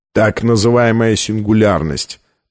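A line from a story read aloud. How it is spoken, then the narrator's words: Grumbling. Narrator (Russian): проворчал Колер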